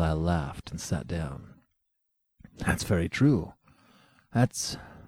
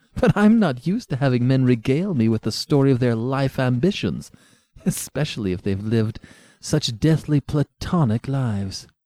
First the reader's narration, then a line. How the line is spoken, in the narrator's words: she said, melting into laughter